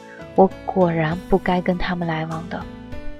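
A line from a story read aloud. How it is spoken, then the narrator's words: Whispered sigh. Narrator (Chinese): 甘露悄声地对尚修文叹气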